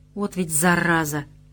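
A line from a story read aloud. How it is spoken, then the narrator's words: Grumble. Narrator (Russian): проворчал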